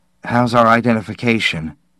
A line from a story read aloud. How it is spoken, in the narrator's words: Gilly said nervously